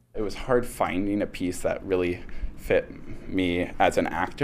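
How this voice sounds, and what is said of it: Usual voice. Nothing is said of it.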